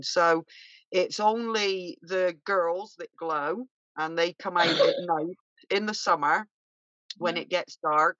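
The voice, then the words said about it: Bristol English accent. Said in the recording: “you have to excuse my accent because I'm from Bristol originally”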